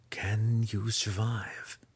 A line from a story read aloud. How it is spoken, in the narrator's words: Zack whispered